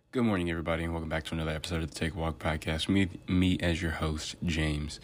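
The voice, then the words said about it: Deep, throaty morning voice. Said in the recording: “this is my morning voice. ... I typically sound like this when I can't clear my throat enough to sound like a normal human being. Probably going to be a bit deeper”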